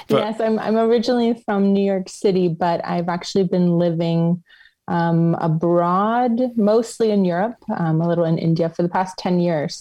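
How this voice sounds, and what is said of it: American accent. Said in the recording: “we have an American accent in Europe”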